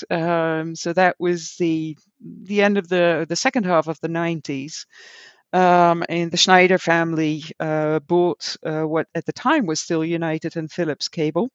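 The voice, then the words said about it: American accent. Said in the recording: “hence my American accent.”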